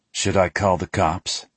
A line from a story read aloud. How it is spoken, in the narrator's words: he asks in that dry tone he gets